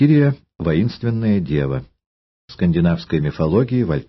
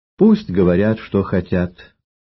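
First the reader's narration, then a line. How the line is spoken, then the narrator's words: Calm. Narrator (Russian): спокойно ответила Артруда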